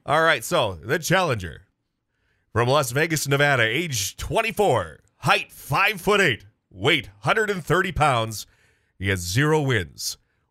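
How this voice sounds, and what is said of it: Boxing ring announcer voice. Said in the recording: “my best Michael Buffer impression. ... the Let's Get Ready to Rumble guy”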